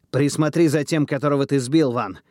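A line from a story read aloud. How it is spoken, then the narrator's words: Shouted. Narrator (Russian): выкрикнул Эверард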